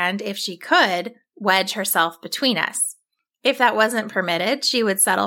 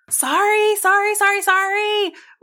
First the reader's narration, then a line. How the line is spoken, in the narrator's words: we yelled at the donkeys